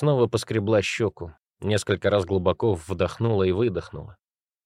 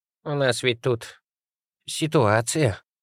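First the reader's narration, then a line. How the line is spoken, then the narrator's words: Firmer voice, to herself. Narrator (Russian): окрепшим голосом пояснила Алла Егоровна самой себе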